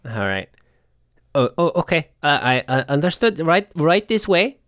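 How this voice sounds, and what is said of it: Character voice with inconsistent accent. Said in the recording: “This accent is literally all over the place. ... Their accent is recycled, too.”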